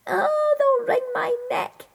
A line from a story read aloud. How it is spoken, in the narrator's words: wailed Jackdaw